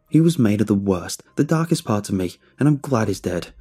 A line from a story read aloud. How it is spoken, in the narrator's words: I shouted at the audience